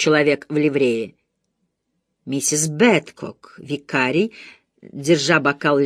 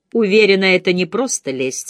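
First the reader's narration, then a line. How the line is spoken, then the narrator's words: Plain. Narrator (Russian): сказала Марина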